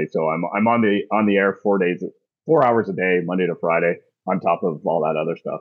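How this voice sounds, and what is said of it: Hoarse, partially lost voice. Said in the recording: “my voice is about 80-85%. I lost my voice ... I just can't speak the way I normally speak”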